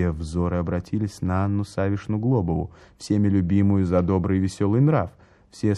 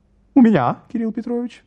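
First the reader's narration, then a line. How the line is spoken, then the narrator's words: Squeaky thick female voice. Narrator (Russian): пропищал толстый дамский голос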